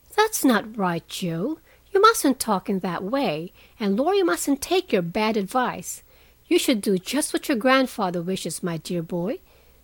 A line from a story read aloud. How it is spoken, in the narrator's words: said Meg in her most maternal tone